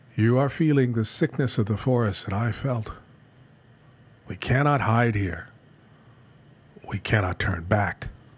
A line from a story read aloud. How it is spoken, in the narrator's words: Kaidu replied to him calmly